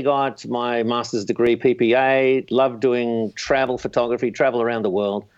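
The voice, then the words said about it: Slight Brooklyn accent. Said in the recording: “a little bit of a Brooklyn accent”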